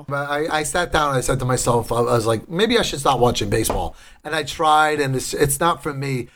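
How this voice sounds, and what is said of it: Strong regional accent. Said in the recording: “my accent is hilarious ... As strong as my accent is”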